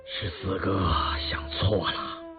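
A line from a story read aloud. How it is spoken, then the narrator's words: Moved, slightly hoarse. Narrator (Chinese): 雍正被他这番如泣如诉的话语深深打动，他的声音也变得有点沙哑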